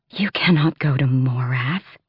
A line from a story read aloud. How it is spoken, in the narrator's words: Astrin breathed